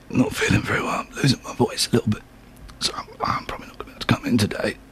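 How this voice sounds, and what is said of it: Fake sick voice. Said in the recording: “Okay, now apply the sick voice.”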